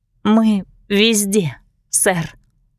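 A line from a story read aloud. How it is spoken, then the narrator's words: Trembling voice. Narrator (Russian): дрожащим голосом ответила я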